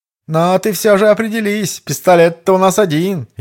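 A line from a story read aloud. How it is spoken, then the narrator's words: Almost laughing. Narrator (Russian): Едва не рассмеявшись, Марио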